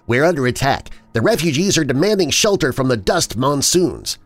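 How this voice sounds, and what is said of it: Agitated, anxious character voice. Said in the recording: “Raj's accent had morphed from polite to agitated. ... Raj's words popped with anxiety.”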